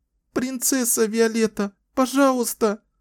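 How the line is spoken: Whimpering plea. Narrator (Russian): захныкала, умоляюще

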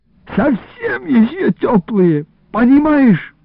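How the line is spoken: Groaned. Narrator (Russian): простонал Иларион

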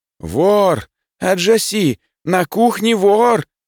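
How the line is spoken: Yelling at top of lungs. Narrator (Russian): заорал я во все горло

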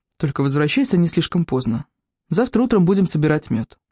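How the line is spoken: Calm reply. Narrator (Russian): ответил спокойно

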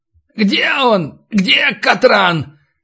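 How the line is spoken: Demanding yell. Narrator (Russian): требовательно завопил Натаниэль

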